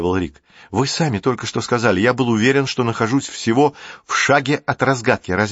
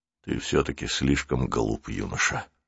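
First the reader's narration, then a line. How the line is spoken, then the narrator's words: Old man sighing. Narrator (Russian): вздохнул старик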